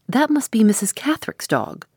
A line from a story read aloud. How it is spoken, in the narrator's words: cried the housekeeper